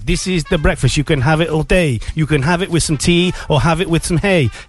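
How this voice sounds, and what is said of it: Put-on Welsh accent, improvised rap. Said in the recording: “my Welsh accent”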